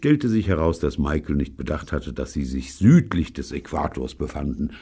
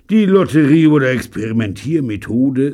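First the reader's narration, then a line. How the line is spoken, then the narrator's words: Weary sigh. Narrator (German): seufzte Pycroft matt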